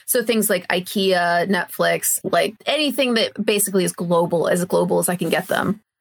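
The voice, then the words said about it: American English accent. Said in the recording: “obviously you can tell from my accent ... I'm originally from the US, as if you couldn't tell a mile away, the way I'm talking”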